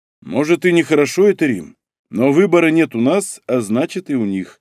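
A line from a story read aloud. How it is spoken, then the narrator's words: Plain. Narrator (Russian): ответил Старлей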